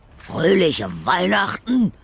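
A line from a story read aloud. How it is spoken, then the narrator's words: Old man blustering. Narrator (German): polterte der Alte los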